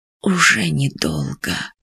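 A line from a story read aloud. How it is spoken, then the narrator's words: Old man's whisper. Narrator (Russian): прошептал старый Рах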